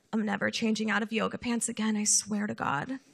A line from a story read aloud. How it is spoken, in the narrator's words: muttering to herself